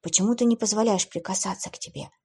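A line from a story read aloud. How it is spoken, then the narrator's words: Whispered question. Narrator (Russian): шепотом спросил блондин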